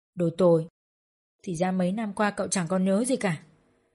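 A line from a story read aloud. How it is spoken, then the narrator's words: Soft. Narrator (Vietnamese): Trang khẽ nói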